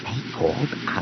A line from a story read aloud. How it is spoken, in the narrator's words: he muttered